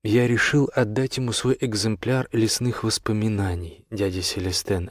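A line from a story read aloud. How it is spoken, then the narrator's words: Plain, young fox. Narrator (Russian): ответил лисенок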